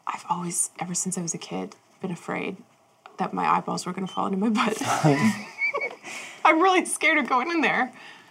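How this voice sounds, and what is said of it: Low voice. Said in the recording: “in a low voice”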